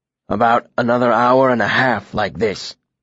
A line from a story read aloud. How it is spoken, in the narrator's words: he rasped